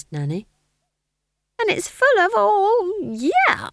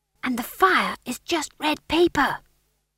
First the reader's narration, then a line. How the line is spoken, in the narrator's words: whispered McGrath